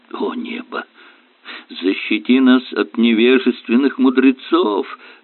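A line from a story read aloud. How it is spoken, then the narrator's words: Groaning. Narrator (Russian): простонал доктор Кирк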